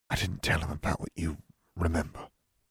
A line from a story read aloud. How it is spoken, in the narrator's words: whispered